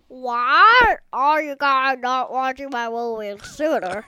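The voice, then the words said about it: Grinch character voice. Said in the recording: “good Grinch impression”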